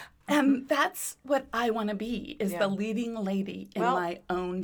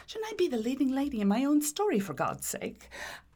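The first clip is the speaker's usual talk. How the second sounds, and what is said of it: Put-on British accent. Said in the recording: “she has a British accent.”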